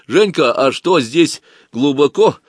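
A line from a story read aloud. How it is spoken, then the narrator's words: Loud question. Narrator (Russian): громко спросил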